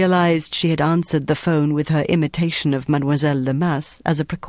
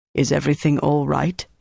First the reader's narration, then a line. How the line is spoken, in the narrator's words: he asked